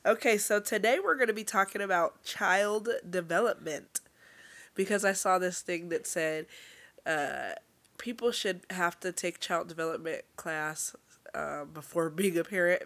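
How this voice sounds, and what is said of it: Strained, fading voice. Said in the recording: “the way my voice is going, listen, I feel a good cough in my throat coming.”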